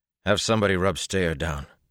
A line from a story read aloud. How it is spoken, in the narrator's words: he said roughly